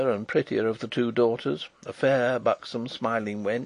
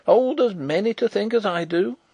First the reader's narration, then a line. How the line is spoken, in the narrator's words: cried the old woman stubbornly